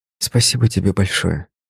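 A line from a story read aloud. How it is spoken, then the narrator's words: Quiet. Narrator (Russian): прозвучало тихо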